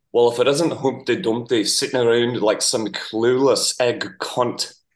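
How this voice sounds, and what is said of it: Put-on Scottish accent. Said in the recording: “You do a pretty good Scottish accent for an Australian. ... That's bad for an Australian. ... That's not bad.”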